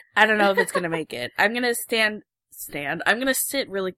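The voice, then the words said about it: Faint, sick-sounding voice. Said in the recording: “sick, so her voice may be a little faint”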